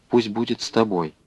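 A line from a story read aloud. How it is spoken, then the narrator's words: Quiet. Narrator (Russian): тихо произнесла она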